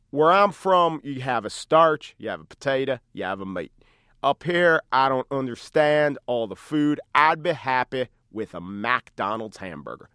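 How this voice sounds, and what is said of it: Poorly imitated Memphis accent. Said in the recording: “I'm going to mangle the accent.”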